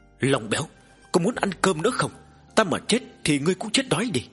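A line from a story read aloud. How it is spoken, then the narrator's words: Angry roar. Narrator (Vietnamese): hắn đã giận dữ thét lớn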